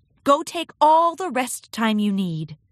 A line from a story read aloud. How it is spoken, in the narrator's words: Twilight laughed